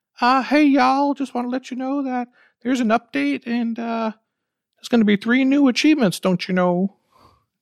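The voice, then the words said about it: Put-on Minnesota accent. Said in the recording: “Oh, what are you, from Minnesota now? ... I'm so good with accents.”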